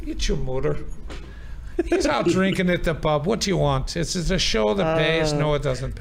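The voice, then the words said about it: Put-on Irish accent. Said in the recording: “I answer the phone in an Irish accent”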